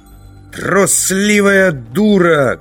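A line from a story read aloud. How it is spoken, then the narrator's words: Shouting. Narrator (Russian): крикнул Завулон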